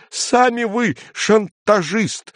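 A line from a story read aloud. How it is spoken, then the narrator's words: Agitated shout. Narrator (Russian): выкрикнул цензор, снова покрываясь пятнами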